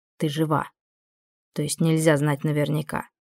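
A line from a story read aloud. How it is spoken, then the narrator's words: Calm remark. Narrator (Russian): спокойно заметила вампирша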